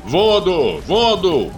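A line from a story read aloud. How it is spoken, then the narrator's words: Shouting. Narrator (Russian): кричал Салемгерей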